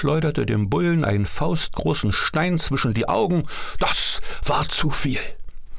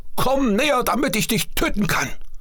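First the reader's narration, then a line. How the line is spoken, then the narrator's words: Calling out. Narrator (German): rief Büffelkind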